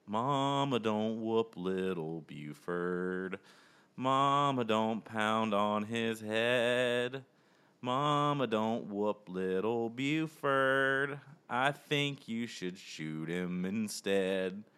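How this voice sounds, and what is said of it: Put-on country bear accent, sung. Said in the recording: “my best country bear accent”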